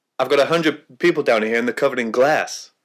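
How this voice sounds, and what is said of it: Imitates a film character's accent. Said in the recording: “So you attempted the accent, so I'm going to give you both points for that, because I think you got it”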